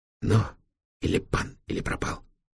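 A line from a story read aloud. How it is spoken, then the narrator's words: Excited whisper. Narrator (Russian): азартно прошептал Витек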